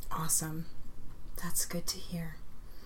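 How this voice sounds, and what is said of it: Creepy voice. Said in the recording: “I said that in such a creepy voice”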